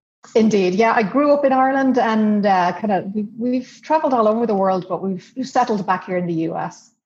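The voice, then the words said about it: Irish accent. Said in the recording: “beautiful accent ... you're from Ireland, right?”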